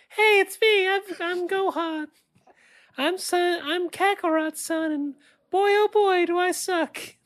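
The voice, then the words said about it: Whiny childish mocking voice. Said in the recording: “Here's my impression of a whiny baby who will never go Super Saiyan”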